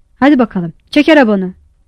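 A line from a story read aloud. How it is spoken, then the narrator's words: Shouted at child. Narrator (Turkish): diye çocuğa bağırdı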